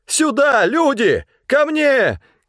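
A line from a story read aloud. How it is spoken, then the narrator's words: Shouting. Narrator (Russian): кричал он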